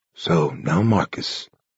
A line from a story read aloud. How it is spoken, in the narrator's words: the abbot murmured sadly